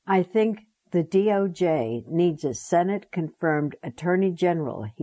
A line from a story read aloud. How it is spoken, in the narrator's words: he said